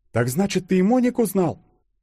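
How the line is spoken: Exclaim. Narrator (Russian): воскликнула Юля

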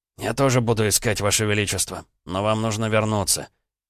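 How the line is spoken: Hoarse male voice. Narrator (Russian): подтвердил хриплым голосом, добавив

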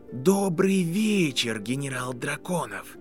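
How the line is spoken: Cold whisper. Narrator (Russian): произнес Гарри Поттер холодным шепотом

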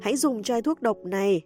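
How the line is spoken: Loud shout. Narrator (Vietnamese): nàng hét lớn

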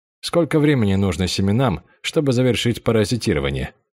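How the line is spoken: Plain question. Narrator (Russian): спросил Линь Хуан

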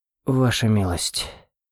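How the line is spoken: Breathless exhale. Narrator (Russian): выдохнул эльф, закончив разрывать землю вокруг корня

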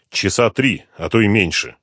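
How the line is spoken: Sharp reply. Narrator (Russian): резко ответил он

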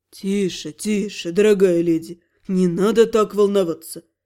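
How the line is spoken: Soft ingratiating murmur. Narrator (Russian): Вкрадчиво зажурчал Эльдавор

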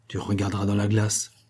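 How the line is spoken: Added in low voice. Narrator (French): ajouta-t-il à mi-voix

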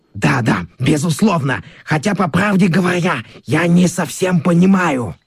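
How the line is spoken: Hasty, hoarse, strange voice. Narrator (Russian): директор цирка поспешно заговорил, но каким-то хриплым, не своим голосом

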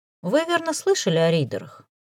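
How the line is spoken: Sudden casual question. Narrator (Russian): Вдруг осведомился Максим Леонидович таким будничным тоном, словно речь шла о квартирных тараканах

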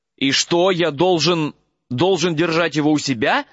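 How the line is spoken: Horrified, strained. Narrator (Russian): в ужасе выдавил Гарри

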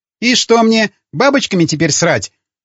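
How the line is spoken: Schoolgirl's sharp reply. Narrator (Russian): резко ответила школьница

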